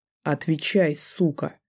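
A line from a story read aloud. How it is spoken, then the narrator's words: Growl. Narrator (Russian): прорычал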